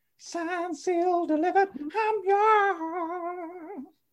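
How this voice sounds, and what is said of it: Singing in falsetto. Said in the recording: “I think I could do a good falsetto ... You could probably do a better falsetto than Barry Gibb”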